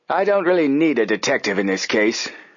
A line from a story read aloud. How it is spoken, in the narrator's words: Hurd Applegate snapped